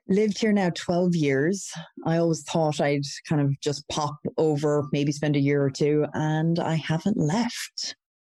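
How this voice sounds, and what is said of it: Irish accent. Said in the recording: “originally from Ireland ... I'm sure the listeners are hearing the accent.”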